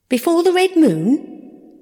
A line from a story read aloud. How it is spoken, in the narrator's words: The Trickadoe huffed indignantly